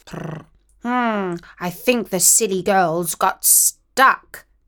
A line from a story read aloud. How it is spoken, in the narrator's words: he purred